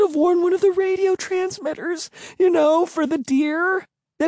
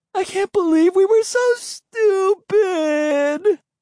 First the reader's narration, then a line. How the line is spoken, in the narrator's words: Emily wailed